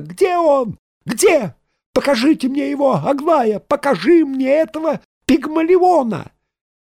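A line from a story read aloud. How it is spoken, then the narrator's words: Shrill scream. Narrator (Russian): Она закричала визгливо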